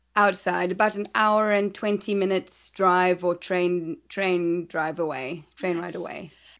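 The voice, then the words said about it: Hard-to-place mixed accent. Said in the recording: “I cannot place where you're from your voice ... my accent is very original”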